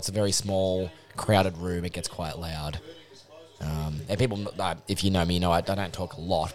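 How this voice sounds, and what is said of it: Hoarse voice. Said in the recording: “That's why I'm hoarse as well.”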